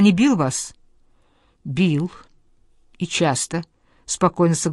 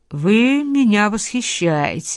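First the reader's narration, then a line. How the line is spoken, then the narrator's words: Mocking. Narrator (Russian): сказал насмешливо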